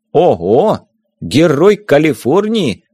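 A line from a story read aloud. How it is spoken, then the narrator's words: Exclaimed. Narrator (Russian): воскликнул Виктор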